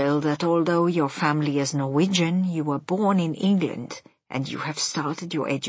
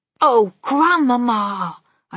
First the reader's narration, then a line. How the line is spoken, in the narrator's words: I cried